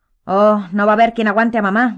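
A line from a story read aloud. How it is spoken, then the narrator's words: Grumble. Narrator (Spanish): gruñó George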